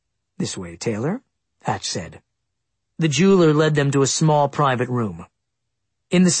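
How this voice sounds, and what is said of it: Usual voice. Nothing is said of it.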